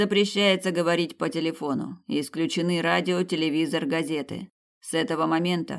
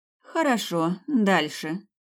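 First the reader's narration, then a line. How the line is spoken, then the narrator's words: Sighing. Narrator (Russian): вздохнула Тина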